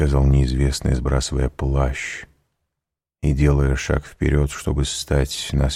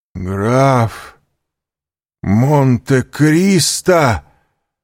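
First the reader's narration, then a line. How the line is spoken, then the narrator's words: Horrified exclamation. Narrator (Russian): В ужасе воскликнул Данглар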